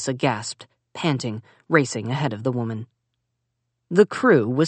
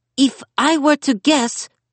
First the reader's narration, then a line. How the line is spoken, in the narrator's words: Simon yelled over the wailing